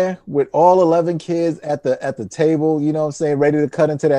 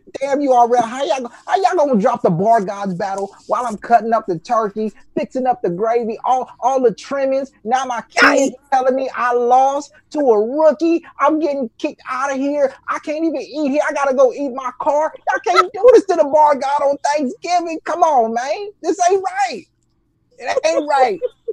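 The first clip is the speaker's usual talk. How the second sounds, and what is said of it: Imitates another person's voice. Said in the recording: “Is that Danny impersonation?”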